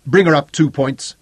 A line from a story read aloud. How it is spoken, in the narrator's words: he snapped